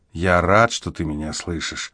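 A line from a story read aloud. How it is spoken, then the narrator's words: Tender. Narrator (Russian): ласково проговорил он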